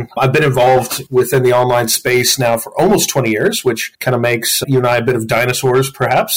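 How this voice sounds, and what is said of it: American accent. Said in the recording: “as you can tell from my accent, I'm originally not from Australia. But I'm actually originally from Colorado in the U.S.”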